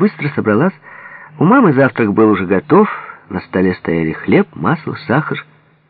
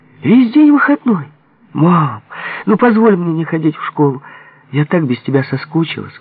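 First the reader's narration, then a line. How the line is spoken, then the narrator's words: Pleading. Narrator (Russian): взмолилась Таля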